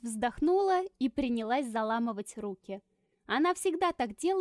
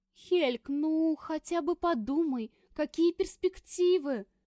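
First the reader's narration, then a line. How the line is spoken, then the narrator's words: Mother pleading. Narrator (Russian): взмолилась мама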